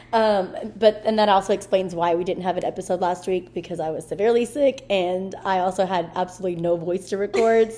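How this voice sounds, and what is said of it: Hoarse, cracking, low sick voice. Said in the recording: “I am recovering from bronchitis. And that's why my voice is like super cracking and low”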